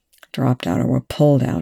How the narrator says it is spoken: Young growled

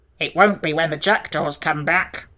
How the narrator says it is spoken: growled the Sawhorse

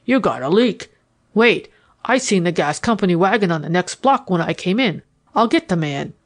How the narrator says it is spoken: I said in the toughest voice I could assume

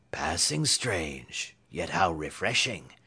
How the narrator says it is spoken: murmured Sir Hokus

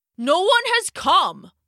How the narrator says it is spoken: shouted

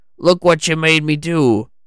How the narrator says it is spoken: Frank said with a chuckle

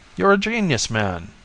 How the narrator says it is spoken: Jones exclaimed

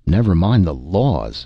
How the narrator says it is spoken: snapped Darquelnoy

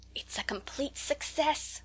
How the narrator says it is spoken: whispered Rose ecstatically

